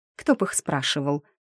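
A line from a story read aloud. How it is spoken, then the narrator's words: Snorted. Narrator (Russian): фыркнула графиня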